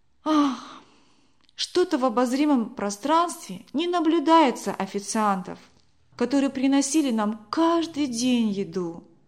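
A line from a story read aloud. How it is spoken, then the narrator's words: Sighing. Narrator (Russian): вздохнула Вера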